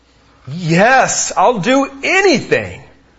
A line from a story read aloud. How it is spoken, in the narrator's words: exclaimed the man